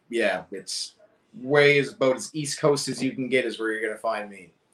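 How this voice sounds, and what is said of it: Nova Scotia east coast accent. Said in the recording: “Nova Scotia... Far east coast, yeah... Thus the accent.”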